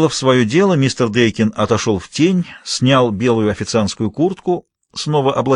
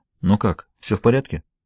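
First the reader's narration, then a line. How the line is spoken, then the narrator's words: Quiet question, borrowed voice. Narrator (Russian): Официант тихо спросил голосом мистера Дейкина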